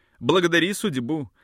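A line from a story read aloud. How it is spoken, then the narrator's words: Plain. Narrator (Russian): сказал мне Гельфрейх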